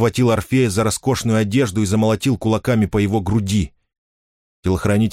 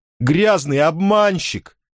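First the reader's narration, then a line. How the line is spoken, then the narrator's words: Tearful shouting. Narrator (Russian): со слезами кричал Фарид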